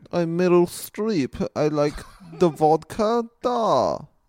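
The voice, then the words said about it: Put-on Russian accent. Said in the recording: “Give me a look at the accent. ... a bad or a good accent. ... pretty good. ... She sounds very Russian. ... Very Russian.”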